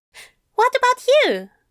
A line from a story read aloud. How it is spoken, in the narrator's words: Aziraphale asked brightly